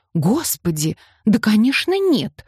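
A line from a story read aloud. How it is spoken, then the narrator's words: Exclamation. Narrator (Russian): воскликнула Гиацинта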